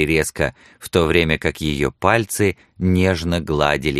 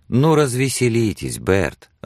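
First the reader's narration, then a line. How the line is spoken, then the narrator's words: Warm, smiling. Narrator (Russian): ласково улыбнулась Сексон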